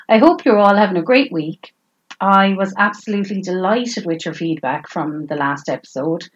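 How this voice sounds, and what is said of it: Flat Tipperary Irish accent. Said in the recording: “how flat of a Tipperary accent I have”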